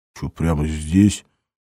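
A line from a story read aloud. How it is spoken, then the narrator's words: Hoarse. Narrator (Russian): прохрипел он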